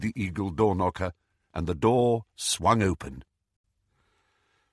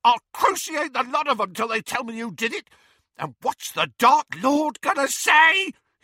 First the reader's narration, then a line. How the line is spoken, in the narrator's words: he shrieked